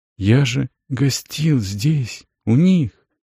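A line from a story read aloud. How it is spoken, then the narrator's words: Quiet. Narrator (Russian): произнес Рисан тихо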